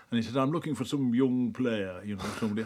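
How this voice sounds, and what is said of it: Put-on northern English accent. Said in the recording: “my northern imitation, because he was from Yorkshire... That's actually quite good. I think it's decent.”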